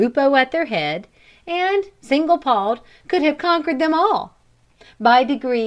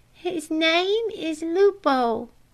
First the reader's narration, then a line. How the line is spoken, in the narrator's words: said the thin dog in a trembling voice